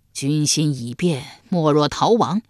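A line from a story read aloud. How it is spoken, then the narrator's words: Sighing. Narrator (Chinese): 易牙叹道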